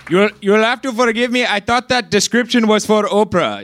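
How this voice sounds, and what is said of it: Put-on accent sounding Jewish-Italian. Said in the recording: “I'm sorry if this accent is Jewish-Italian. I have no idea what's happening right now.”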